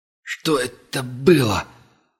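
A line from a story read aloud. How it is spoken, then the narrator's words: Hoarse strained. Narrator (Russian): сипло выдавил Ваграмов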